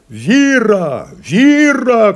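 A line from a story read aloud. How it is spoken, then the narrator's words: Shouting. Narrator (Russian): кричал Петр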